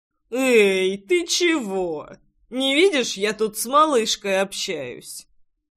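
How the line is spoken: Slightly drunk objection. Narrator (Russian): Слегка пьяным голосом возразил парень

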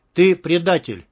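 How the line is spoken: Shout. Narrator (Russian): крикнул Толик

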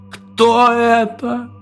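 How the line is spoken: Sobbing voice. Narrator (Russian): Донесся до меня в последний раз его рыдающий голос

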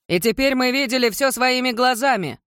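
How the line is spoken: Man shouting. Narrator (Russian): крикнул мужчина

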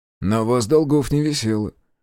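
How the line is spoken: Snorting. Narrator (Russian): хмыкнул я

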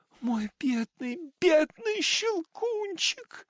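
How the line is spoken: Sobbing shout. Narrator (Russian): рыдая, закричала она

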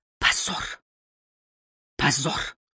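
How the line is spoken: Quiet, to herself. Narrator (Russian): И снова тихо, обращаясь к самой себе

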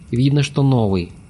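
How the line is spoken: Mutter. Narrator (Russian): буркнул Олег

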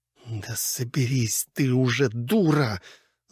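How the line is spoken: Angry, through gritted teeth. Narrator (Russian): зло процедила она самой себе сквозь зубы

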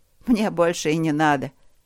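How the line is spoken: Snorting. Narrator (Russian): Хмыкнула она

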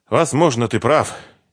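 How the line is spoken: Heavy sigh. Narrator (Russian): Ирина тяжело вздохнула

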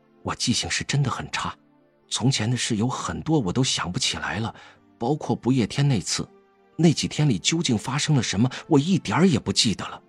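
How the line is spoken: Deep breath, low voice. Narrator (Chinese): 深吸了一口气，低声道

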